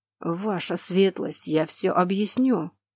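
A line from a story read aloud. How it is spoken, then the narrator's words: Hoarse wheeze. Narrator (Russian): прохрипел он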